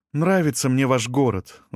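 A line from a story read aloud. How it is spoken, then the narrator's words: Sighing. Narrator (Russian): вздохнула она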